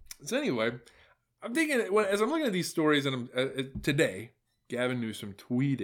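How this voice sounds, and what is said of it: Usual voice. Nothing is said of it.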